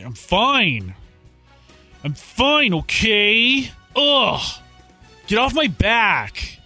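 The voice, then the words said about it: Exasperated teenager voice. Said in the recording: “He sounds like a teenager that's been asked one too many times”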